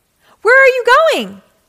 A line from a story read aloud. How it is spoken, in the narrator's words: shouted